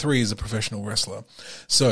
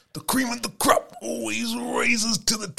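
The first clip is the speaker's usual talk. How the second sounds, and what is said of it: Imitates a wrestler's throaty voice. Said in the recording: “Excellent impersonation ... It hurts my throat every time I do it”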